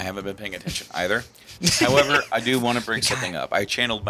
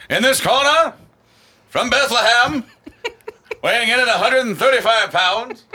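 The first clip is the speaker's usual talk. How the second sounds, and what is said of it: Boxing announcer voice. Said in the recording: “doing my announcer voice”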